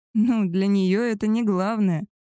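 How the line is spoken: Laughing. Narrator (Russian): рассмеялась

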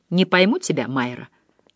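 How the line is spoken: Very quiet. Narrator (Russian): очень тихо сказал

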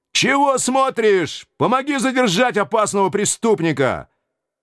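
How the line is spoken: Strained shout. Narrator (Russian): майор надсадно выкрикнул

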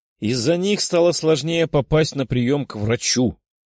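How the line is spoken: Irritated grumble. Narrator (Russian): с раздражением в голосе проворчала Наташа

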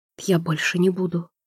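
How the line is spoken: Whispered. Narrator (Russian): прошептала неизвестно кому

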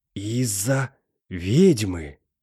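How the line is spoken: Tense, anguished whisper. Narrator (Russian): прошептал оперативник с видимым напряжением в глазах и мукой на лице

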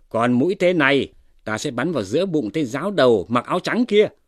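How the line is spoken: Shout. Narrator (Vietnamese): Hoa Vinh đã rút mũi tên thứ ba ra rồi quát lên

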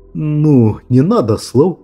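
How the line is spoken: Confused young man. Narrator (Russian): растерянно молвил парень

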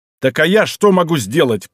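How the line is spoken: Growling. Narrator (Russian): прорычал Изуха

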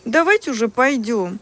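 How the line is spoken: Girls pleading. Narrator (Russian): взмолились девчонки

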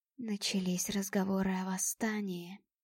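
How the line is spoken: Sad. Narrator (Russian): печально сообщил он

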